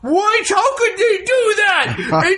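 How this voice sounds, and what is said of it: Mock outraged anime fan voice. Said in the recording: “my anime fan impression”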